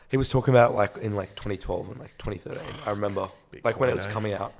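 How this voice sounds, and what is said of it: Hoarse, strained voice. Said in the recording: “Why have I lost my voice?”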